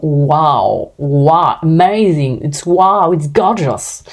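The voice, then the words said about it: Not-great accent speaking English. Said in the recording (French): “j'ai pas un accent de ouf, je suis désolée”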